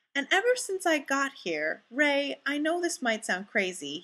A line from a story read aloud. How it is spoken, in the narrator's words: Fraser explains earnestly